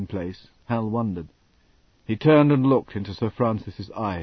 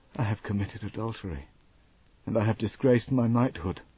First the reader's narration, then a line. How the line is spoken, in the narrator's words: Hal whispered